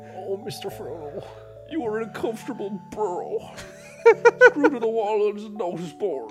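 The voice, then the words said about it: Impression of a fictional character's voice. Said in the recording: “That impersonation's brilliant. ... That's a pretty good impression.”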